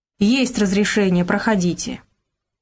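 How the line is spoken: Stern. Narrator (Russian): Вахтер строго поглядел на ребят, сказал

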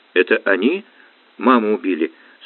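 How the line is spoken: Tearful trembling question. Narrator (Russian): со слезами на глазах, дрогнувшим голосом спросил Игнат

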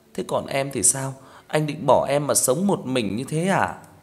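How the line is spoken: Pleading woman. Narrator (Vietnamese): Vợ Sinh cầu xin

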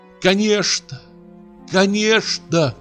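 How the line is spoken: Shouting. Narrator (Russian): кричала она

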